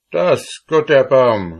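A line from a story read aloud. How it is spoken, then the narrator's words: Father exclaiming. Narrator (German): rief der Vater aus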